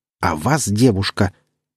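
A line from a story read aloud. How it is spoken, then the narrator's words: Almost hissing. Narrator (Russian): Миранделла едва не зашипела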